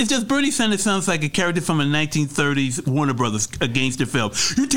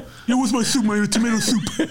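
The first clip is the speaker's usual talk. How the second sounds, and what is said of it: Imitates another person's voice. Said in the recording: “that Bernie Sanders impression”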